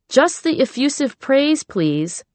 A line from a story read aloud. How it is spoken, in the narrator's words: I called out preemptively